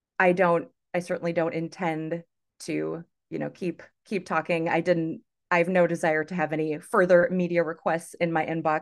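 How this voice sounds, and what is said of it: American or Canadian accent. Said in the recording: “sounds American or Canadian. You know, she definitely doesn't have a British or Scottish accent.”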